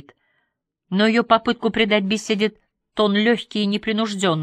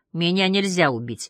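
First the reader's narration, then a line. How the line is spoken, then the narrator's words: Calm. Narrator (Russian): отвечал Каин спокойно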